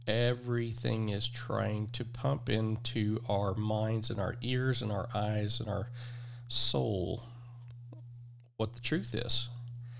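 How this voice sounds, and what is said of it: Oklahoma/Texas Southern US accent. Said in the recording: “I'm from Oklahoma. I was raised by a woman that's from Texas, so that explains the accent.”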